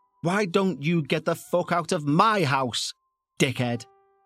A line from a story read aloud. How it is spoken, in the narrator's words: Angrily, I shouted